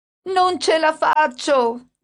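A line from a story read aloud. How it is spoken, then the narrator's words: Shouting. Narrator (Italian): gridava mia madre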